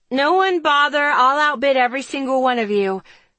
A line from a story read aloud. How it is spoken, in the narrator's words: shouts